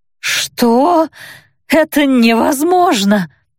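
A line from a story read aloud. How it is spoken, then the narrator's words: Witch's hoarse rasp. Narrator (Russian): прохрипела ведьма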